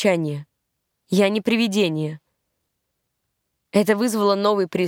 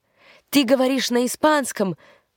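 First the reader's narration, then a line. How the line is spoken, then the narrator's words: Exclaimed in native language. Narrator (Russian): воскликнул один из парней на родном языке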